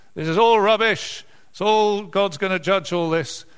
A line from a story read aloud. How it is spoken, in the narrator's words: This prophet comes in and starts shouting out